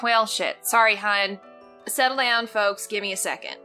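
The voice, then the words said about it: Slight southern accent. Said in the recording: “in a slight southern accent”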